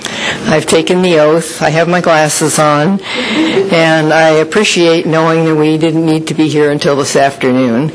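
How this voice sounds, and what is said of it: Hoarse, croaky throat. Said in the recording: “I have a frog in my throat.”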